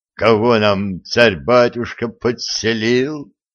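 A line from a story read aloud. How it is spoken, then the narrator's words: Grieving moan. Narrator (Russian): горестно простонал Жучок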